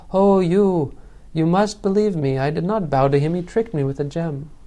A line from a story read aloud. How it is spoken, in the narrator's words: cried